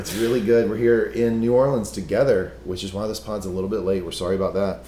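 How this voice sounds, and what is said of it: Tired voice with vocal fry. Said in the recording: “I don't sound the normal baritone that you normally get from ... is not there ... I'm struggling ... The vocal fry that you're hearing right now, not put on ... We're just all kinds of burned out”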